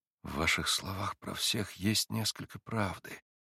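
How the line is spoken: Quiet. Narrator (Russian): проговорил тихо Алёша

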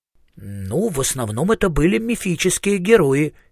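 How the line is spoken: Uncertain. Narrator (Russian): неуверенно произнес Маркоу

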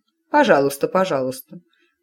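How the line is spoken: Grumbling mother. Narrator (Russian): пробурчала матушка

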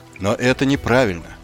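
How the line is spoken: Even voice. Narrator (Russian): ровным голосом произнес Маркову

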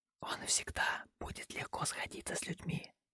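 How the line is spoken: Whisper. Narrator (Russian): прошептала она

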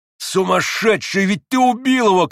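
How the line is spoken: Shouted. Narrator (Russian): крикнул Иван

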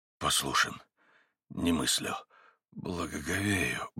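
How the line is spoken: Muttering. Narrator (Russian): бормотал Митя

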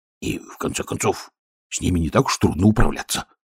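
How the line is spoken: Whispered, guard. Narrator (Russian): прошептал первый стражник

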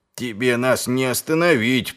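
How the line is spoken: Muttered. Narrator (Russian): пробурчал человек

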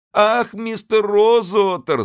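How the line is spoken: Sobbing. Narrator (Russian): зарыдала она

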